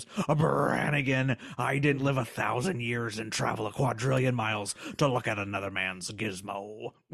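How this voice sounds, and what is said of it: Imitates another person's voice. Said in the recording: “my other impression, which is Richard Nixon”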